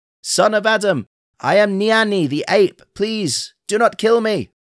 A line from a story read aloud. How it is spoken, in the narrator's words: The ape called out